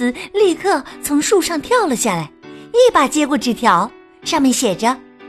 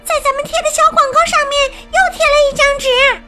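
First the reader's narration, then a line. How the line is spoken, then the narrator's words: Calling out. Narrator (Chinese): 克莱尔朝菲利克斯喊道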